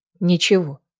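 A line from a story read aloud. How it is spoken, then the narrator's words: Gruff mutter. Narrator (Russian): буркнула Неста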